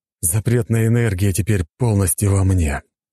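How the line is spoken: Sighing. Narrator (Russian): вздохнул цесаревич

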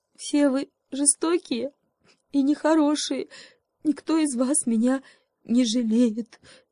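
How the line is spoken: Sobbing. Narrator (Russian): всхлипнул заяц

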